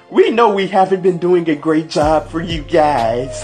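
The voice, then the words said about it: Poor imitation of another person's voice. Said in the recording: “I know that's a horrible Stephanie McMahon impersonation”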